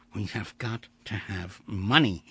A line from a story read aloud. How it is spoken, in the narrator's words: whispered